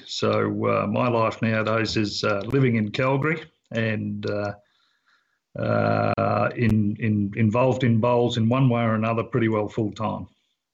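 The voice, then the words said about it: Australian accent. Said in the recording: “the accent. It's Australian, I'm assuming.”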